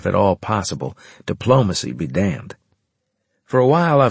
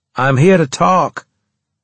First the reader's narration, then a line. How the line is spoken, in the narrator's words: I said loudly